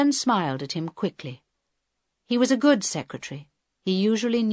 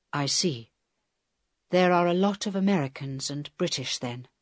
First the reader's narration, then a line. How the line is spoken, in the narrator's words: said Helen quietly